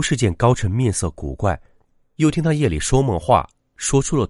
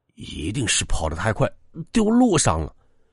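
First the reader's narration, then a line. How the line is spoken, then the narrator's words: Muttering. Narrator (Chinese): 高晨 不停的嘟囔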